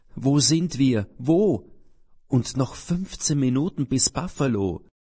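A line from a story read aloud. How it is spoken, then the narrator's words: Loud wailing. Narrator (German): ein Jammern wird laut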